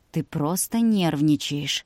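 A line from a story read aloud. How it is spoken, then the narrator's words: Tender, gentle. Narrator (Russian): нежно произнес Илья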